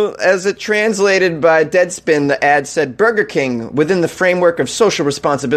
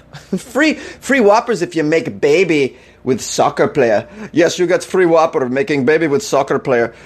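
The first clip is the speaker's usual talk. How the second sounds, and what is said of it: Put-on Russian accent. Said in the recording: “Is that a pretty good Russian accent?”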